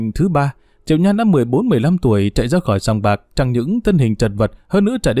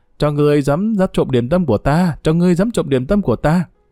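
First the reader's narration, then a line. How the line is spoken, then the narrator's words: Girl yelling angrily. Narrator (Vietnamese): nữ hài tử đã 10 tuổi kêu gào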